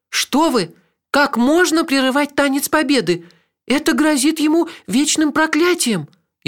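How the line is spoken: Frightened reply. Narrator (Russian): испуганно ответила Хейлах

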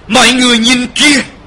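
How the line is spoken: Sudden cry. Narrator (Vietnamese): Viên Thuyền bỗng kêu lên

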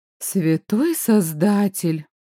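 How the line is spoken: Breathless gasp, grandmother. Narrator (Russian): выдохнула Ба

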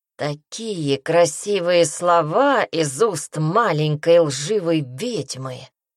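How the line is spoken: Young man drawling. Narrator (Russian): протянул парень

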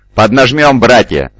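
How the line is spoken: Shouting. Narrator (Russian): закричал Захариил

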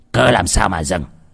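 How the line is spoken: Startled angry question. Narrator (Vietnamese): Viên quan triều Bắc đang ngủ say trong kiệu, giật mình tỉnh giấc, tức giận hỏi

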